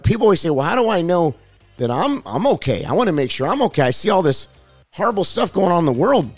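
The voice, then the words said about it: Raspy, strained voice. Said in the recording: “excuse my voice. I've been preaching a lot. And I know I got a kind of like a raspy voice today”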